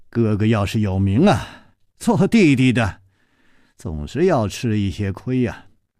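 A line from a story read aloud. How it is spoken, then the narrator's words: Sighing after silence. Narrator (Chinese): 楚留香沉默了一会儿，才叹气了一声说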